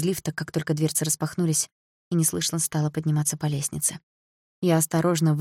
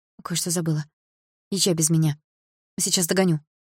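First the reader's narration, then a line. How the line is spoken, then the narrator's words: Hurried speech. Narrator (Russian): торопливо сказала я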